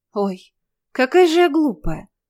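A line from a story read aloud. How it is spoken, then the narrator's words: Sudden exclamation. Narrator (Russian): внезапно воскликнула Инесса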